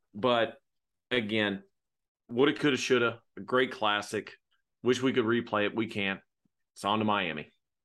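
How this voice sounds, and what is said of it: Strained, worn-out hoarse voice. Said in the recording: “My voice is slowly disintegrating.”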